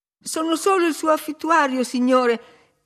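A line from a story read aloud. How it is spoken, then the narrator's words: Exclaimed. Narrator (Italian): esclamai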